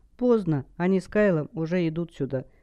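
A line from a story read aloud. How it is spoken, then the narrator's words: Sadly. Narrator (Russian): грустно сказала Хелл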